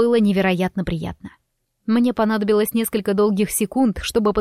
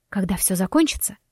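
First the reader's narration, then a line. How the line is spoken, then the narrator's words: Quiet but confident. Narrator (Russian): произнесла я тихо, но уверенно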